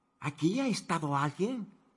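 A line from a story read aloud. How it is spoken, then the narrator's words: Whispered. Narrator (Spanish): susurró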